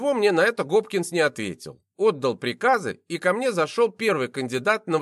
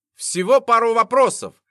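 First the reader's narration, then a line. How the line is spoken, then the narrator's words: Journalist yelling. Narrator (Russian): заорал журналист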